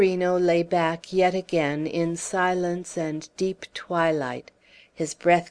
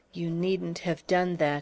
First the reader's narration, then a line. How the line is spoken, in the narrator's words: whispered at last